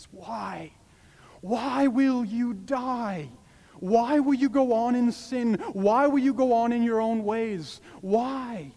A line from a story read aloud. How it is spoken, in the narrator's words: God pleading with sinners